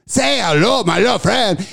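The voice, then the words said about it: Exaggerated corny Cuban accent. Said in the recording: “corny-ass, horrible fucking Cuban accent”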